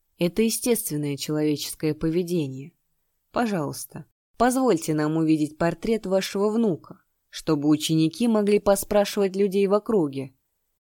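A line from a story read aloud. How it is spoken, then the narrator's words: Grim, magnanimous lord. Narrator (Russian): Владыка острова мрачно улыбнулся и великодушно сказал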